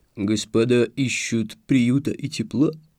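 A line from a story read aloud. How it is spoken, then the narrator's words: Unexpectedly deep bass voice. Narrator (Russian): неожиданно низким голосом пробасил субъект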